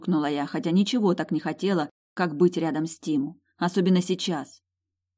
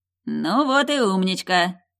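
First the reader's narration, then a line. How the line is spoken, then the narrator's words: Snorting ghost. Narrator (Russian): хмыкнул призрак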